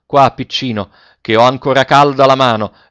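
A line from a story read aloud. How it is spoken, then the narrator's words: Shouted. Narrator (Italian): egli gridò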